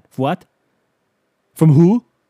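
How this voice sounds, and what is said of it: Bad put-on German accent. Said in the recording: “Bad German accent.”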